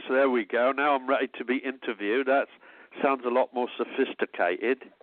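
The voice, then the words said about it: Put-on British accent. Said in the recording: “put on my British voice.”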